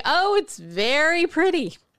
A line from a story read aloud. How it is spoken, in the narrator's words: they all joined the emperor in exclaiming